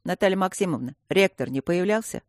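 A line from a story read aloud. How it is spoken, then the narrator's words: Unpleasant voice. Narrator (Russian): проговорила неприятным голосом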